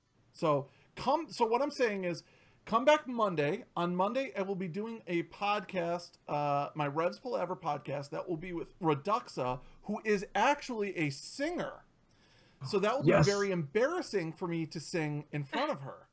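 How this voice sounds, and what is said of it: Slightly raspy voice. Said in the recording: “I don't trust my voice not to just break if I try to sing ... it is a little raspy ... A little bit, yeah.”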